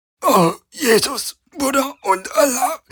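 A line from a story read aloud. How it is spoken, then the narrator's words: Gasping in pain. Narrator (German): keuchte Captain Akina, während sie vorwärts robbte, Zentimeter für Zentimeter, Schmerz um Schmerz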